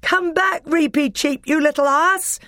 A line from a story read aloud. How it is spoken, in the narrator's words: shouted Peter